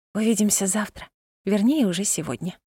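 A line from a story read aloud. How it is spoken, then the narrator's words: Whisper. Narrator (Russian): прошептала она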